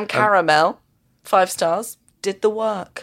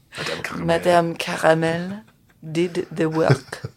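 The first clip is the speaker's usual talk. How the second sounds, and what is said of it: Put-on French accent. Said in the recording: “Can you do that in a French accent?”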